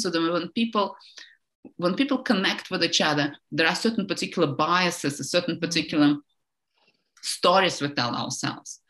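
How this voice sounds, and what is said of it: Eastern European accent in English. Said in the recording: “my German accent or my English accent ... they know I come from somewhere like in Eastern Europe”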